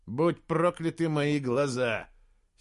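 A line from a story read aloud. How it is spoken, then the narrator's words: Angry muttering. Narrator (Russian): сердито пробормотал Слудик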